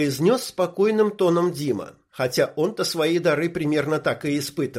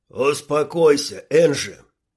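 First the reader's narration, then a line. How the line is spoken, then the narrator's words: Deep bass voice. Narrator (Russian): пробасил Шмель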